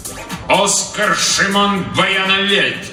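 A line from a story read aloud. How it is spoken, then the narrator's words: Crisp clipped pronouncement. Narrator (Russian): отчеканил он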